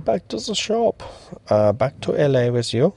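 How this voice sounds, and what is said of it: Put-on German accent. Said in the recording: “I said that in a German accent.”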